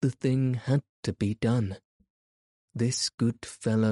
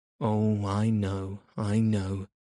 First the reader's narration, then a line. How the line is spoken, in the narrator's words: said the badger gloomily